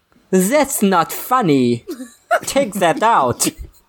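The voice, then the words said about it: Comedy German accent. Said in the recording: “Is that your comedy German accent?”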